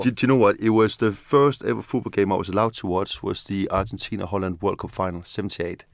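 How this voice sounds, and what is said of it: Non-London foreign accent. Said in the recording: “People can hear you're not necessarily from North London by the indication of your accent... I've been here 30 years and I've still got that accent. I can still hear it.”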